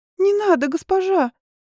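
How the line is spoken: Squeak. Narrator (Russian): пискнула Присси

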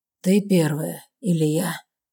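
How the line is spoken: Hoarse, scratchy question. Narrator (Russian): спрашивает, и его голос звучит хрипло, будто каждое слово царапает горло

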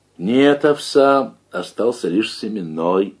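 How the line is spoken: Plain. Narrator (Russian): ответил Давыдов

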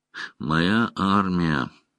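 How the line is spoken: Grim inner thought. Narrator (Russian): мрачно подумала Найнев

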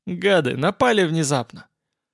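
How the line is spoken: Pleased chuckle. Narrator (Russian): Олаф довольно хохотнул

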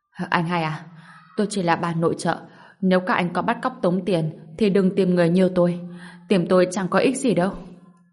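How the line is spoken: Trembling frightened voice. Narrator (Vietnamese): Bà ta run rẩy, giọng hoảng sợ nói

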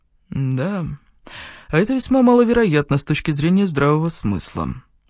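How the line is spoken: Dry. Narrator (Russian): сухо заметил мистер Холмс

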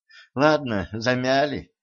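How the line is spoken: Princess's guilty sigh. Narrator (Russian): вздохнула принцесса, признавая свою вину

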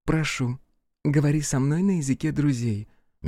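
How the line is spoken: Soft reply. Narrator (Russian): мягко ответила Матя

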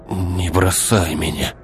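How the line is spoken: Barely audible hoarse rasp. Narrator (Russian): Едва различимо прохрипел он

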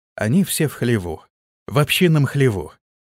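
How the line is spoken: Quiet. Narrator (Russian): тихо проговорил разведчик

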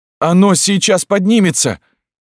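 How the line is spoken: Frightened yell. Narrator (Russian): заорал, уже не скрывая страха Антон

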